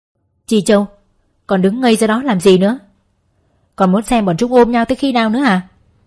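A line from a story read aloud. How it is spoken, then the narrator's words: Impatient angry yell. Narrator (Vietnamese): Thái úy đã bắt đầu nổi giận, hét lên một cách thiếu kiên nhẫn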